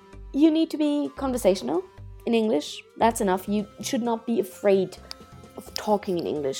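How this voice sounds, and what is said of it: Non-native English accent. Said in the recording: “What if English is not my first language? It isn't mine either. ... nobody can hear my accent, right? I'm blending in. No. ... I do have one”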